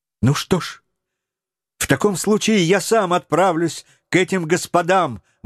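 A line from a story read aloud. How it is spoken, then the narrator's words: Young man exclaiming. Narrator (Russian): воскликнул юный Роберт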